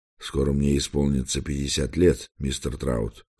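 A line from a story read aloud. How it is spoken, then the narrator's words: Plain. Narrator (Russian): сказал я ему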